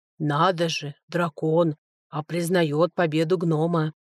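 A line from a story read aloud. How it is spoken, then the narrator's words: Grumbling elder nearby. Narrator (Russian): проворчал неподалеку от меня один из старейшин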